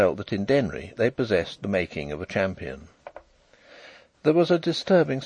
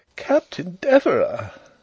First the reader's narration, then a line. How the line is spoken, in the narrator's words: exclaimed several voices